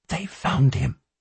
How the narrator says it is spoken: She leaned closer and whispered

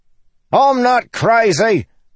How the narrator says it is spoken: Lopin yelled back

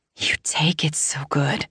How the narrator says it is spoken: I whisper

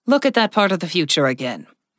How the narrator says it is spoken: Rudit said firmly

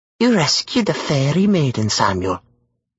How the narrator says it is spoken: the witch purred

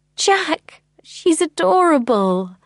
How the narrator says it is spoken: I cried

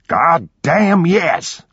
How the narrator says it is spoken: roared Miranda's father

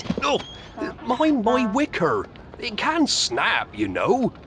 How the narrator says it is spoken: the donkey, which gave a groan and said

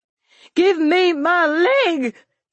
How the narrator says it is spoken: she screamed

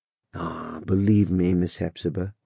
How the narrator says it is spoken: said the young man quietly

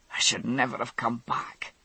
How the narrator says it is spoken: he muttered

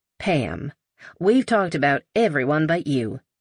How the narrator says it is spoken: Eugenia said in her Texas drawl

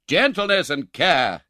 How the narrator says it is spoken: exclaimed the doctor

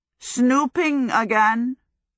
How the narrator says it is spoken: Howl said suddenly behind her

